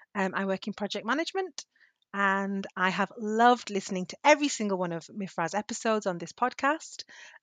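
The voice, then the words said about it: British accent. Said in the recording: “her British accent”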